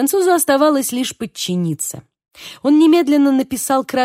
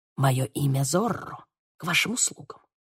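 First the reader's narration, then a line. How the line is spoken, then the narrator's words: Whisper. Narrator (Russian): прошептал Диего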